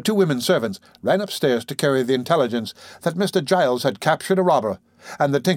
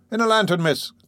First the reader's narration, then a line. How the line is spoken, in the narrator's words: cried Brittles, applying one hand to the side of his mouth so that his voice might travel the better